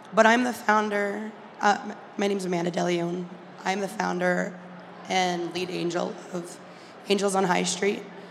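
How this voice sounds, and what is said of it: Hoarse, cracking lost voice. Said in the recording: “I lost my voice. I sound like I'm going through puberty right now.”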